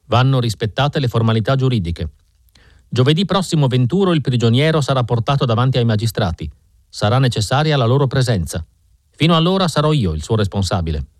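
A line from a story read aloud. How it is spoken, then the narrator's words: Grave tone, inspector. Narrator (Italian): fece l'ispettore con tono grave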